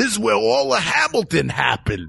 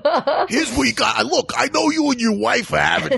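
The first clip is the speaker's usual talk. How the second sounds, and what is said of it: New York cab driver accent. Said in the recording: “cab driver who gives advice, but the advice he gives always ends in New York ... New York accent”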